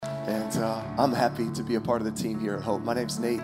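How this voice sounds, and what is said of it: Hoarse, strained voice. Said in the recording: “I lost my voice last night a little bit... you got to listen through the uh, struggle... it sounds like everything I say is very emotional this morning”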